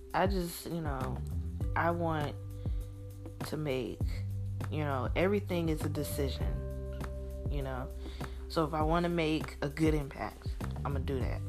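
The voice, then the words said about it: Mild Mississippi Southern accent. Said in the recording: “I have that Mississippi accent ... it's not a thick accent. Like, I'm not from the Delta, no. I'm from the capital”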